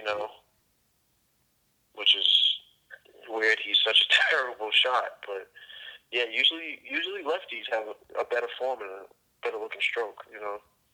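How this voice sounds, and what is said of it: Boston accent. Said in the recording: “I know you're from Boston. You got the whole accent and everything”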